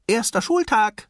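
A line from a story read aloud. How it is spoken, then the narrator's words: Calling out. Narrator (German): rief er seinem Vater zu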